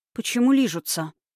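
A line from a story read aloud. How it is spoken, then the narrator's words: Sigh. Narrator (Russian): вздохнула Ивета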